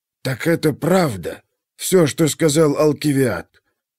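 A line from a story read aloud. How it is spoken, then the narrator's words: Father's chilled voice. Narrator (Russian): похолодевшим голосом спросил отец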